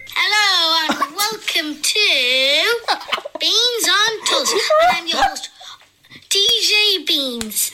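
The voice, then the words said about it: Very squeaky voice. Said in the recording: “squeaky my voice was ... That's an odd voice ... it was very squeaky”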